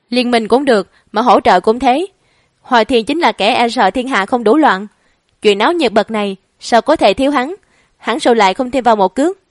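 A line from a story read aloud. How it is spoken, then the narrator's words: Amused, leisurely tone. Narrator (Vietnamese): Lãnh Hạ, không khỏi bật cười, thong giọng nói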